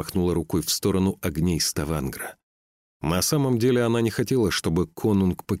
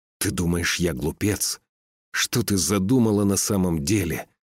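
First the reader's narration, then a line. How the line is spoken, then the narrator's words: Spiteful, through teeth. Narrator (Russian): процедил Скаль со злобой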